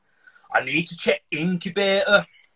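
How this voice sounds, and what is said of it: Deeper-toned Huddersfield accent. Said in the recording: “Chris Sutton's accent ... he's from Huddersfield, so he's got a bit of a deeper tone”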